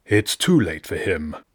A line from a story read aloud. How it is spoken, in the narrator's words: said dryly